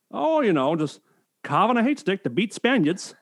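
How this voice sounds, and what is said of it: Put-on Maine accent. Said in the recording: “Just like this racist Maine accent. ... I don't do it justice”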